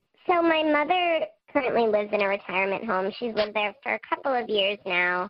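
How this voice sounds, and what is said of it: Electronically altered disguised voice. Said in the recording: “We've altered your voice using our voice changer, so no one will know who you are”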